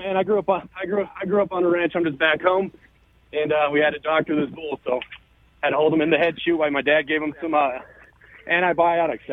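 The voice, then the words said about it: Slightly out of breath. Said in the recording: “little out of breath here ... so I'm a little out of breath”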